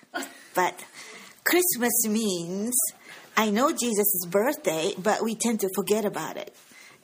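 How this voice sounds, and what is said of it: Japanese-accented English. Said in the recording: “I have a Japanese accent”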